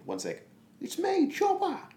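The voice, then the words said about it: Imitates another person's voice, Australian accent. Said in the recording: “Work on your Australian accent ... I'm going to do this voice for years”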